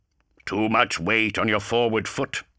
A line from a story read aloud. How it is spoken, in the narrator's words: grunted